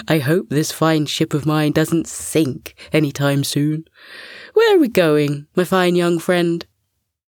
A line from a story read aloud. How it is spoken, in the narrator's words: With a chuckle, the walrus added